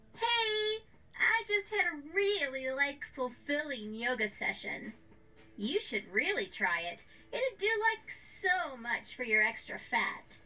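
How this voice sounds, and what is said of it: Sarcastic, mocking imitation of a coworker. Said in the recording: “In a sarcastic and mocking accent, she imitates Melanie.”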